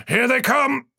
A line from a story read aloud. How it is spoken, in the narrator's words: he shouted